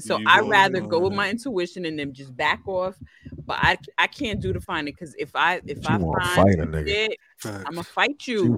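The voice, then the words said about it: Strong New York accent. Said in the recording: “your New York accent just came out real crazy”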